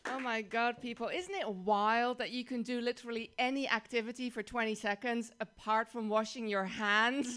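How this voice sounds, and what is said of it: Dutch accent. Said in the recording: “So my accent is Dutch.”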